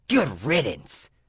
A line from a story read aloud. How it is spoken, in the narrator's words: she spat